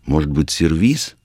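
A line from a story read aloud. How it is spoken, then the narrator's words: Uncertain. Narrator (Russian): неуверенно произнесла Римма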